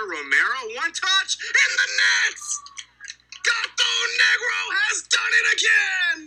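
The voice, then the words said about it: Frantic, excited shouting commentary. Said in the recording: “I feel like I sound like a maniac. I think I sound like a student who's excited”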